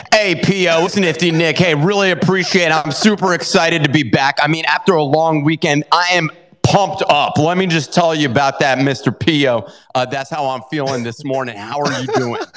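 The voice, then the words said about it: Imitated radio host voice. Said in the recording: “your radio voice imitation of me”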